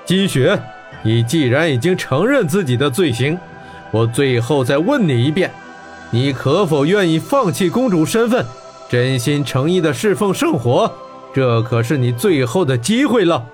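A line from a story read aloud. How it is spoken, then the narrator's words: Laughing. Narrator (Chinese): 孟特巴笑道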